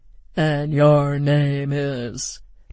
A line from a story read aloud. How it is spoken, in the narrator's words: drawled our hostess, Dr